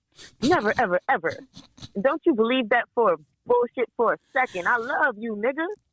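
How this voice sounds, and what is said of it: Imitation of Varnell Hill's voice. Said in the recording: “in his Varnell Hill voice.”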